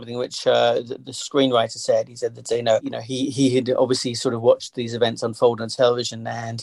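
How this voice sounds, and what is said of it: Usual voice. Nothing is said of it.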